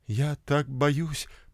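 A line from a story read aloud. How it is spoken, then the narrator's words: Murmur. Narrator (Russian): пробормотала она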